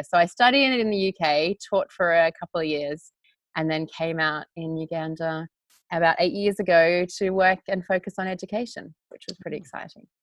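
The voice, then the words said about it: Softened Australian accent. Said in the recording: “I could still hear the Australian accent ... Maybe softened, but it's definitely still there”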